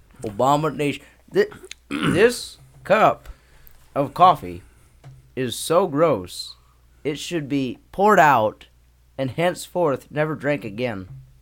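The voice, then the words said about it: Imitates another person's voice. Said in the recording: “That's my best Obama impersonation. ... You've done better.”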